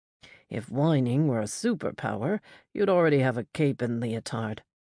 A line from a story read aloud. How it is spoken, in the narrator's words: he replied dryly